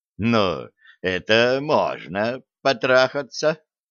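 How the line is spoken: Remark with short laugh. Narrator (Russian): заметил Лема, коротко хохотнув

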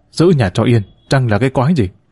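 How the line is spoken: Irritable snap. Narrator (Vietnamese): Bác cả gắt

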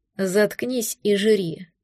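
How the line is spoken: Grumbling. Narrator (Russian): проворчал он

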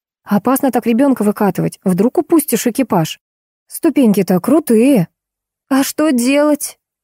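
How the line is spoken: Hopeless exclamation. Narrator (Russian): С безнадежностью воскликнула девушка

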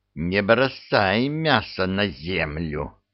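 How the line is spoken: Small man's hiss. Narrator (Russian): прошипел маленький человечек

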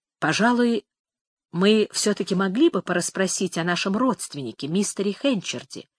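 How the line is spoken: Weak anxious whisper. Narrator (Russian): прошептала миссис Ньюсон, которая как-то сразу ослабела и казалась взволнованной

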